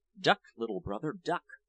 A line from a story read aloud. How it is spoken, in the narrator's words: wise old peasants would whisper